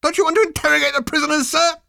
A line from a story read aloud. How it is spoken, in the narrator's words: squealed